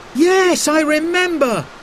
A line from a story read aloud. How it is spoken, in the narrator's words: cried Simon